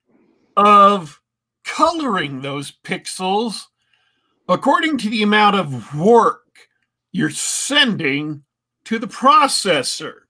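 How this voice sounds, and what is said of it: Rougher, dry-mouthed voice. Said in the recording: “I'm kind of dehydrated, and so my mouth dries out in an instant, especially when I'm talking... my voice is rougher than it usually is”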